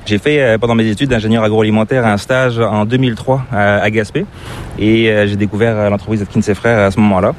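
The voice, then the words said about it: Slight French accent, not Québécois. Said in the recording (French): “tu as une petite pointe d'accent qui est assez difficile de deviner... c'est pas l'accent québécois... je suis d'origine française”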